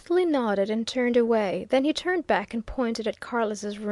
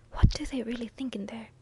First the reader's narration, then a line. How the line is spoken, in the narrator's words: he whispered